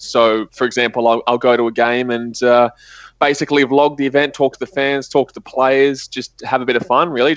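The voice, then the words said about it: Australian accent. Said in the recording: “as you probably can tell, I've got an Australian accent, so I'm from Australia”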